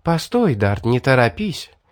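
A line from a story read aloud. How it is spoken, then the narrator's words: Soft charming smiling voice. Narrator (Russian): сказала улыбающаяся девушка своим чарующим мягким голосом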